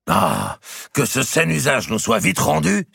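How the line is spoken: Exclaimed. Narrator (French): s'écria Robert

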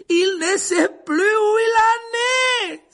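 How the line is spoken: Cry. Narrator (French): s'écria Lupin

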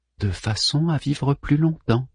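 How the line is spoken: Breathy whisper. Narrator (French): souffla Savi

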